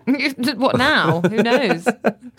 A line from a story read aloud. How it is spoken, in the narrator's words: Sir James laughed